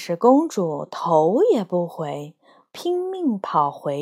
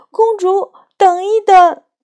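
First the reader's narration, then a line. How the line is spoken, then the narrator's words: Frog croaking anxiously. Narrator (Chinese): 青蛙急得呱呱大叫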